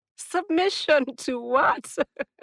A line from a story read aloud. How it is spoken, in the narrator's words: She was laughing now